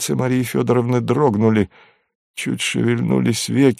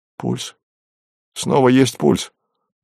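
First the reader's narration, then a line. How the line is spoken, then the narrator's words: Uncertain, surprised doctor. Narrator (Russian): неуверенно удивленный голос врача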